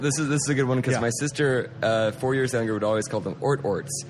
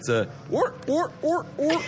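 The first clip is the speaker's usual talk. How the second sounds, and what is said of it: Imitates a sea lion's bark. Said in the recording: “your best sea lion impersonation”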